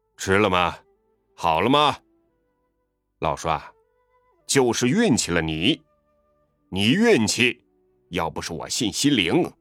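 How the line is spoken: Loud clamoring. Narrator (Chinese): 对老栓嚷道

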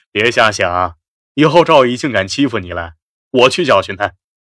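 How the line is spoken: Laughing. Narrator (Chinese): 肖斌笑道

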